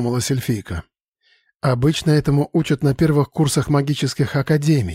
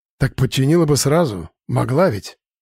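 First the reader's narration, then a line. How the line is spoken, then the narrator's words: Grumbling. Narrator (Russian): проворчал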